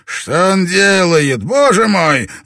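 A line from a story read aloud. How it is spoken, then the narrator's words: Roaring. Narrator (Russian): взревел Ферьера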